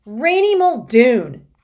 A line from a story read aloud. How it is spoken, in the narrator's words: she shouted